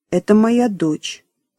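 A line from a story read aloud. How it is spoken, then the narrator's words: Calm reply. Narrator (Russian): спокойно ответила Диана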